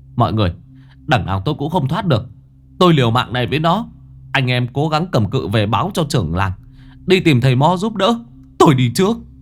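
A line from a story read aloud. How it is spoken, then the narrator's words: Shout from below. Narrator (Vietnamese): Sùng ở bên dưới hét lên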